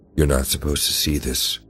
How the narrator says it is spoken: he said, his voice low and unsettling

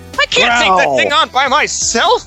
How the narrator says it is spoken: she shrieked

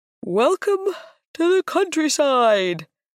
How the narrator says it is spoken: said, with an exaggerated yawn

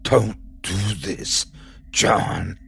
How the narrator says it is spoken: She whispers angrily to him

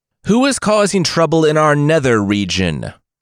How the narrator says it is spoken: Yama cried in the darkness of the underworld

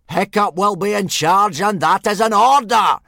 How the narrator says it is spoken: screamed Gobber, who didn't do noises quieter than screaming

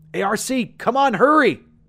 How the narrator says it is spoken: I yelled

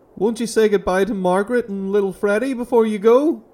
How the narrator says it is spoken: Martin called after him desperately

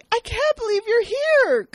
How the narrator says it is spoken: Sydney says excitedly

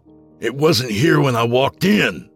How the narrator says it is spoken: I snapped, my voice rising

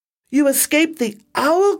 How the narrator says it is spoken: cried Stella Luna

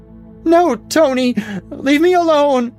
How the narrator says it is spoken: she screamed desperately, her brain sending her messages of murder and sodomy and suicide without relent

